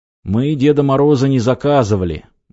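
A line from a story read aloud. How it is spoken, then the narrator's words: Gloomy. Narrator (Russian): мрачно сказал Михаил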